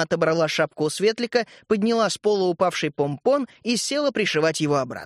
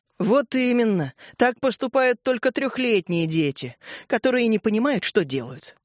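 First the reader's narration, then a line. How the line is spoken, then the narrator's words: Sigh. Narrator (Russian): вздохнула мама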